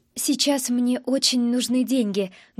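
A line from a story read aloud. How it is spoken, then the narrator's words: Quiet. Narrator (Russian): говорю я тихо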